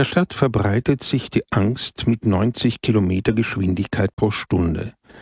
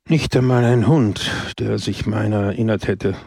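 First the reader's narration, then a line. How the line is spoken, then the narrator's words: Sighing. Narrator (German): seufzte Don Camillo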